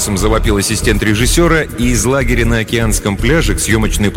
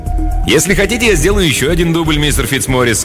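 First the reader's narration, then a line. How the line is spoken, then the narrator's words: Plain. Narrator (Russian): сказал Льюис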